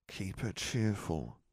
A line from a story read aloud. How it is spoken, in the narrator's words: she murmured